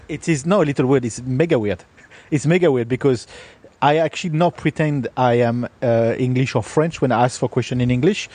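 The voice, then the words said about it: French accent. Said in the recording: “as a Frenchman ... my accent”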